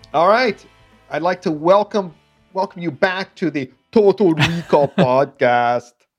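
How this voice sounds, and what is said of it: Imitates another person's voice. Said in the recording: “my hacky Arnold Schwarzenegger impression ... Beautiful, beautiful impression. ... my hacky Arnold voice ... It's excellent. ... that got better as it went along”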